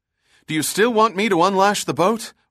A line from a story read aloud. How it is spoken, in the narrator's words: Reagan asked anxiously